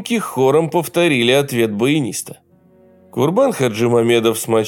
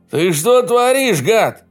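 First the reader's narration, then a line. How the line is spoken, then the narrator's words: Yelling. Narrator (Russian): заорал кто-то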